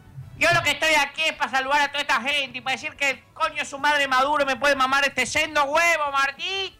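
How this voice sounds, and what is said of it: Imitates another person's voice. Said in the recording (Spanish): “hacer la voz de Macaquiño”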